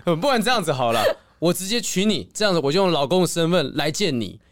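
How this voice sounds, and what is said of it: Mandarin with put-on Korean accent. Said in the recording (Chinese): “有一些那个韩文的口音”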